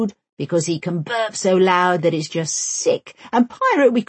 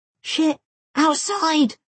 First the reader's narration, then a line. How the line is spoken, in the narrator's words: Omar cries